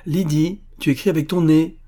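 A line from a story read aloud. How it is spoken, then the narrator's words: Shouting. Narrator (French): cria Madame Goréline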